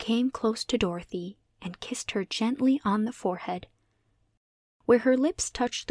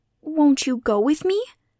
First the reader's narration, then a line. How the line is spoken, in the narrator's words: pleaded the girl